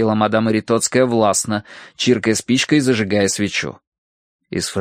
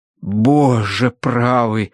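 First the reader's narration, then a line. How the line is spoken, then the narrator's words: Breathless exhale. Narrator (Russian): выдохнул преподобный мистер Арбитидж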